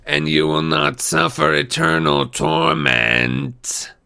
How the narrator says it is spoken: she hissed

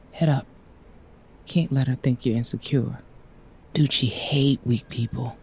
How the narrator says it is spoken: he whispered

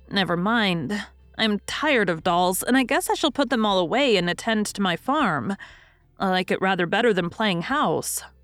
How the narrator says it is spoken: said Mrs

